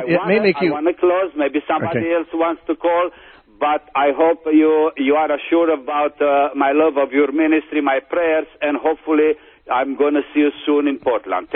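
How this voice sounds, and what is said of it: Speaks with a foreign accent. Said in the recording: “I love your accent.”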